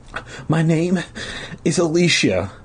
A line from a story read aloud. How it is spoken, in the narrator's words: the girl replied, sobbing